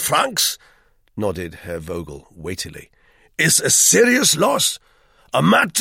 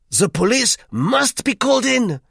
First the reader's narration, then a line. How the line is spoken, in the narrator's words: put in Monsieur Duclos triumphantly